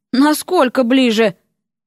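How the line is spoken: Inner sigh. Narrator (Russian): Эрик мысленно вздохнул

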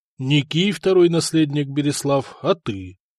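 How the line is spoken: Sad father. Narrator (Russian): Грустно отец

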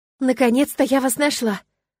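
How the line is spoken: Exclaiming. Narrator (Russian): воскликнула

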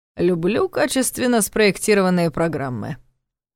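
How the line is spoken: Snorted. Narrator (Russian): фыркнул Ваня

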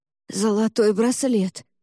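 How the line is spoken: Hoarse rasp. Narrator (Russian): прохрипела я

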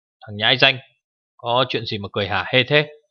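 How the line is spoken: Scolding shout. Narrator (Vietnamese): Cửu trượng thần ông ... quát tháo

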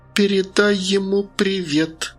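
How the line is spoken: Sarcastic hiss. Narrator (Russian): прошипел язвительный голос

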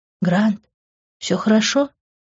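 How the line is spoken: Whisper. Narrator (Russian): прошептала она

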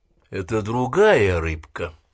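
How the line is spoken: Plain. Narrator (Russian): ответил Паркс

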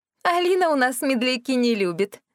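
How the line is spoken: Laughing. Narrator (Russian): рассмеялась она

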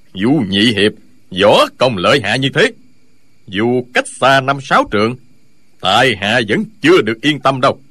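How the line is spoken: Smiling. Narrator (Vietnamese): Lão Hành Khất mỉm cười

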